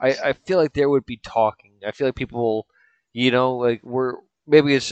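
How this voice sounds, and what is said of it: Usual voice. Nothing is said of it.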